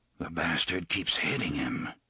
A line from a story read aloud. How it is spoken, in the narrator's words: he murmured